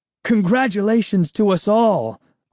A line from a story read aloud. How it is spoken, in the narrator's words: Uncle Ben declared happily